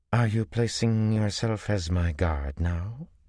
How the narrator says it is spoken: Tuon said coolly

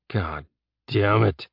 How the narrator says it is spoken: Jeb growled, desperately wishing for his gun

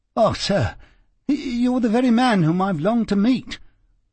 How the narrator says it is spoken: cried the little fellow

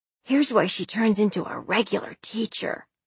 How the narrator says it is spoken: Calder whispered behind the guard's back

